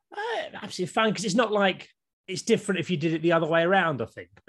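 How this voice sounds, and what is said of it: English accent. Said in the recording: “I've got an English accent like you”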